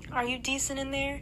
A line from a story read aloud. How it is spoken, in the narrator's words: She called out